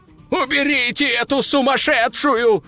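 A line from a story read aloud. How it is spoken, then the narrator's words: Shrieking demoness. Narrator (Russian): вопила демоница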